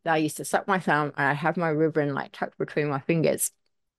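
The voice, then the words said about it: Muffled, funny-sounding speech. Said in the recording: “That's why my voice went funny. My thumb in my mouth”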